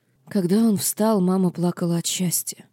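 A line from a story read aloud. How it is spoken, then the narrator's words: Whispered. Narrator (Russian): прошептала Маэлина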